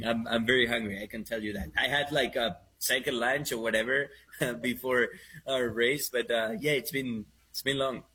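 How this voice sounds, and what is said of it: Spanish accent speaking English. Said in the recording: “It's my Spanish accent. It's my Spanish accent trying to talk Americano.”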